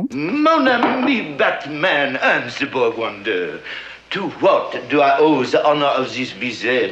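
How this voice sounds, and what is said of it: Exaggerated French accent. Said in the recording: “a pitch-perfect French accent”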